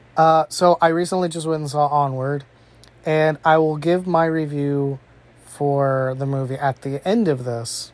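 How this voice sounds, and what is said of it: Sick, under-the-weather voice. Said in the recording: “I'm a little bit under the weather. I'm sure you can tell it in my voice. ... I might cough a lot.”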